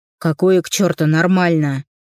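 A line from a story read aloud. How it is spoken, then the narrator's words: Barked. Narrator (Russian): рявкнул Степан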